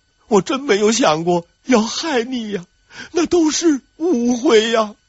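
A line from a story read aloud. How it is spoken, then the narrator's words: Crying. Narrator (Chinese): 郑贵妃就开始哭，一边哭还一边说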